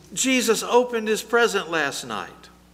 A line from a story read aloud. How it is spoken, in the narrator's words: she shouted